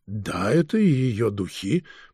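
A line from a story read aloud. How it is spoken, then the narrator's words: Weak voice, nobleman. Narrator (Russian): проговорил слабым голосом граф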